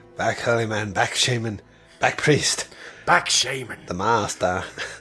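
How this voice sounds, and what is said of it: Impression of Matt Berry's Douglas Reynholm. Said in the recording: “your impression ... starts talking like Matt Berry's character in the IT crowd. you know, Douglas Reynholm.”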